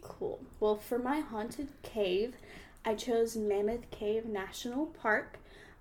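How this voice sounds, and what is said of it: Southern US accent. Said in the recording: “one of your hosts is from Alabama ... Southern accent”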